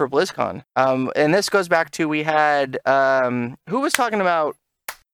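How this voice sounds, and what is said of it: Usual voice. Nothing is said of it.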